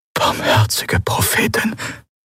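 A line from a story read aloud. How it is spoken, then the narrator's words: Whispering. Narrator (German): flüsterte Qualor neben ihm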